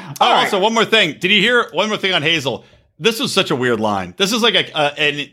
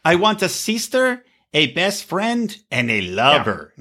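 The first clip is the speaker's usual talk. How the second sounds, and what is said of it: Put-on Mexican accent. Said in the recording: “I don't know why I did a Mexican accent there”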